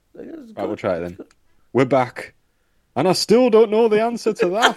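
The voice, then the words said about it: Attempted Mackem accent slipping into Yorkshire. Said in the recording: “It still goes Yorkshire at the end every single time.”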